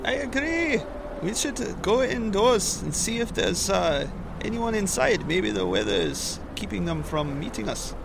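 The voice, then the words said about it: Put-on accent. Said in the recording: “it is hard to shout in this accent”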